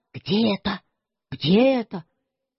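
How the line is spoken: Very quiet whisper. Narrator (Russian): совсем шепотом сказал

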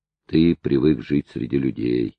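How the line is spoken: Sad reply. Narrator (Russian): ответил печально

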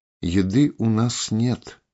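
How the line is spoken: Sighing. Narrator (Russian): вздохнула Тель

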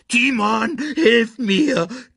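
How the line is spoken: Squeaked. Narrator (German): quiekte

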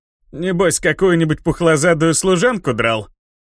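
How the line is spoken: Chuckling. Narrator (Russian): хохотнул бессмертный

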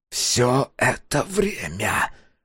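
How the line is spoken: Hiss. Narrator (Russian): прошипел Махару

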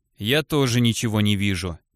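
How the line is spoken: Gloomy reply, shepherd. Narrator (Russian): мрачно отозвался пастух

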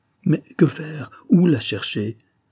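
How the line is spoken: Desperate cry. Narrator (French): s'écria Simon avec désespoir

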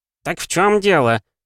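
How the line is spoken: Shout again. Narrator (Russian): вновь крикнул Сандаль

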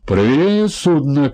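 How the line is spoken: Shouted reply. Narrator (Russian): крикнул в ответ мужчина

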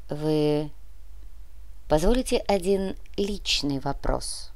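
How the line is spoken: Quiet question. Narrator (Russian): Он негромко спросил

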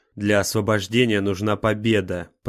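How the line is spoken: Growled. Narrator (Russian): прорычал Ниборан

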